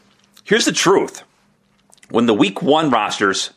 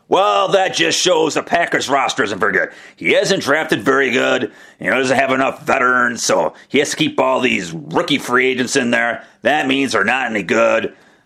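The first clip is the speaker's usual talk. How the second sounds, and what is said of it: Impersonating an upset Packers fan. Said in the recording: “my impersonation of the upset Packer fan”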